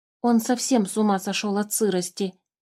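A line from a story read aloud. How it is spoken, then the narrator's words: Whisper. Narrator (Russian): зашептал мимикр Алёше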